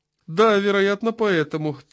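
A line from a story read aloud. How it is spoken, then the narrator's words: Sad smile. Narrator (Russian): печально улыбнулся Смерчев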